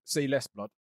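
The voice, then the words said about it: Bad roadman slang impression. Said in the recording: “That's a very bad impression. ... my roadman was quite good”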